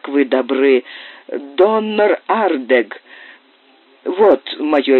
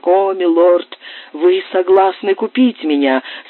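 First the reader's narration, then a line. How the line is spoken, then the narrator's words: Joyful exclamation. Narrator (Russian): с радостью воскликнул нищий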